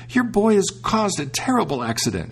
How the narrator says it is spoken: cried out

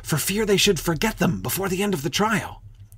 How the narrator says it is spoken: the griffin whispered in reply

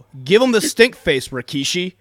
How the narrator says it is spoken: Jack Paul yelled at Samoa Joe

